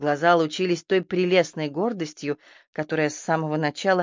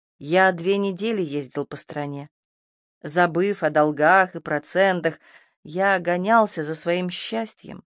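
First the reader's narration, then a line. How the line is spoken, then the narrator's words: Almost timid. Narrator (Russian): ответил он на ее вопрос … добавил почти робко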